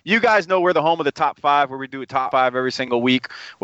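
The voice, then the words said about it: Southern American twang. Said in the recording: “I'm from the South. Us Southerners, man, we got that bad twang, man. It's terrible.”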